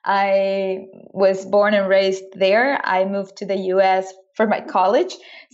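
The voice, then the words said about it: Venezuelan Spanish accent in English. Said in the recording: “I'm originally from Caracas, Venezuela. So if you're sensing or hearing an accent, that's why.”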